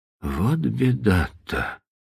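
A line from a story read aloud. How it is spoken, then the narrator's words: Whisper. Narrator (Russian): прошептал он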